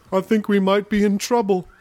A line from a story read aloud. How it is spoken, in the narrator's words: moaned